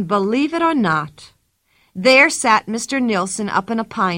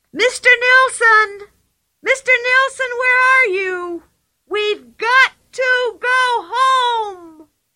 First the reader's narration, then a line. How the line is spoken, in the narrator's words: she was shrieking at the top of her voice